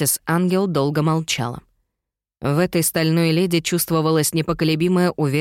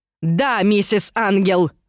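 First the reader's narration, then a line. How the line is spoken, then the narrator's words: Yelling. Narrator (Russian): заорала мама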